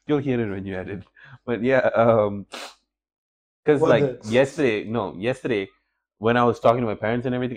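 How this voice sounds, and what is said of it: Congested, altered voice. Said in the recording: “my voice is still like kind of condensed ... I can hear my voice being different”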